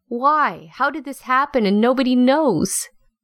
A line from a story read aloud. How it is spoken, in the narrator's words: She was yelling